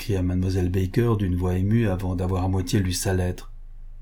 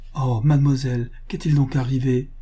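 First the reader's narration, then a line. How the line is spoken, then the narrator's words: Exclaimed. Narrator (French): s'écria Adela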